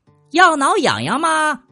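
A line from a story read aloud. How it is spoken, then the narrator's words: Loud shout. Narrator (Chinese): 他 大声喊了起来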